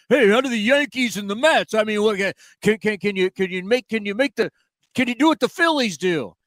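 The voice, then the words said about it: Bad put-on New York accent. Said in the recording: “my bad New York impersonation”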